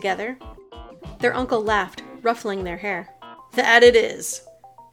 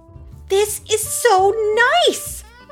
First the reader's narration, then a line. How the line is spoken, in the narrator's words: Kara cried, marveling